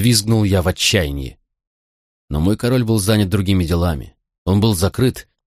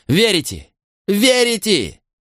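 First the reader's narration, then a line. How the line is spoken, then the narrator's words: Shouting. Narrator (Russian): закричал я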